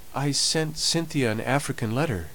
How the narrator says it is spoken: said Molly timidly

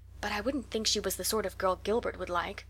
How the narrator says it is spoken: whispered Jane to Anne

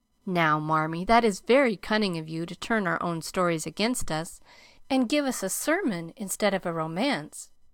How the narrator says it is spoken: cried Meg

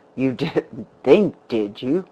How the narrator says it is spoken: the man laughed bitterly

